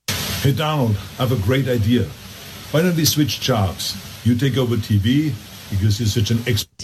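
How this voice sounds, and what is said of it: Heavy German-like accent, almost Scottish. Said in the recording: “the accent is a little bit of an affectation ... I've known German people who have lived in the country for far less time ... that don't sound like that ... That almost sounds Scottish.”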